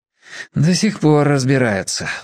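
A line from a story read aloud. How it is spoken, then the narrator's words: Sighing. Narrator (Russian): вздохнул Борис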